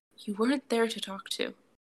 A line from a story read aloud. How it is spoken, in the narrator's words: Izuku says quietly